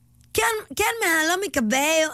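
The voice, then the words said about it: Put-on Yucatecan Spanish accent. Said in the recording (Spanish): “El acento de voz que a mí más me gusta ... estos que hablan así como... ... El yucateco, 100%.”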